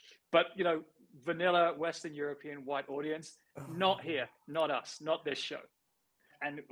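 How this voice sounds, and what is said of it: Usual voice. Nothing is said of it.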